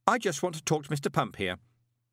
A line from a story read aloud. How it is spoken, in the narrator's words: added sharply